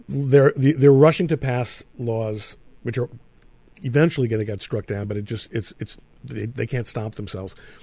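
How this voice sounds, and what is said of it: New York accent. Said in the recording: “New York always will be my state. I was born there and I got this accent there”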